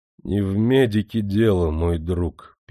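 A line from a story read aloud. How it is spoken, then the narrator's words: Sad. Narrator (Russian): печально промолвил Потемкин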